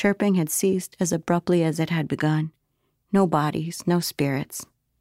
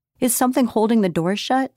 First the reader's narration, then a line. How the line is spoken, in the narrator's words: Starling cried